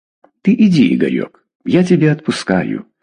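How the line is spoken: Gentle, affectionate. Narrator (Russian): ласково сказала Дежкина

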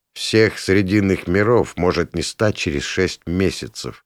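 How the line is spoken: Quiet. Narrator (Russian): негромко проговорил я

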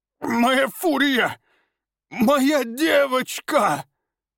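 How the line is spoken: Grief-stricken sobbing. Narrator (Russian): Рыдал он, понимая, что потерял связь с питомцем навсегда

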